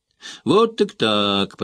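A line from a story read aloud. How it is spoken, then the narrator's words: Cheerful, chipper tone. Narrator (Russian): проговорила она веселым, бодреньким тоном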